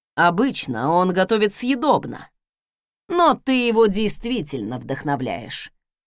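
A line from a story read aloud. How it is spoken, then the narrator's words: Mocking comment. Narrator (Russian): насмешливо прокомментировал Фостен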